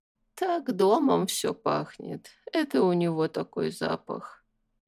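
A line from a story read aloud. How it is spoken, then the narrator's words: Quiet reply. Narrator (Russian): тихо ответила тетка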